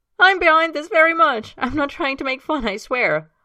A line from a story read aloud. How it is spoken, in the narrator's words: Himes says, still laughing as he speaks